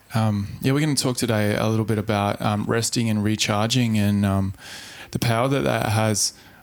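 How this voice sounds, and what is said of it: Hoarse, throaty voice. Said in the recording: “I've got a frog in my throat.”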